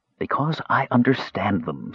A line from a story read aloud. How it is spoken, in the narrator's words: said Raistlin in his whispering voice